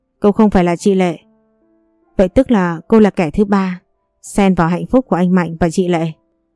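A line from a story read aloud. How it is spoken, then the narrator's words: Slightly sarcastic. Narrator (Vietnamese): giọng nói cũng có chút mỉa mai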